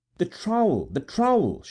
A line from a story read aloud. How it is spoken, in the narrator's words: cried